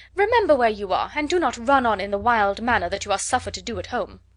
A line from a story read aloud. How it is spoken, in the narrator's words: cried her mother